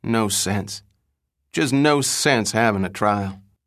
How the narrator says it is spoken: Hickok, wearily wagging his head, again and again murmured

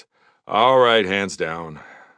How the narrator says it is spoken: I said with a sigh

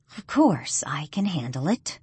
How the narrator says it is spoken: she replies calmly

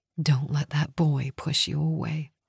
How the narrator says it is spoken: Nora whispered

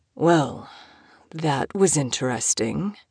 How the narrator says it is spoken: he drawled, his voice husky

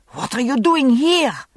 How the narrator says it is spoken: She hissed

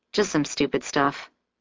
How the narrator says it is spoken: I murmur, more to myself than to her

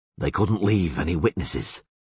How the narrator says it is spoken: muttered the witcher

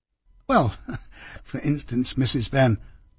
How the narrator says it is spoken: I said with a laugh

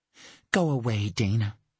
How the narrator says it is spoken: she said wearily

